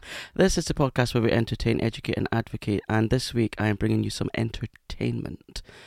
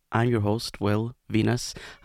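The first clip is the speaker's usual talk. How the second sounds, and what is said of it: Speaks very slowly. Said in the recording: “I have to say that very slowly”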